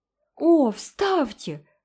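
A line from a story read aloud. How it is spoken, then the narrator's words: Exclamation. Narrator (Russian): воскликнула Джеральдина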